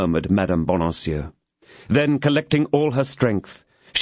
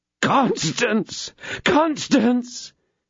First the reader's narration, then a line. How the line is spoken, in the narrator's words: exclaimed D'Artagnan